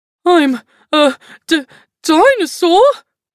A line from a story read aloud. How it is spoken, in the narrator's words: he spluttered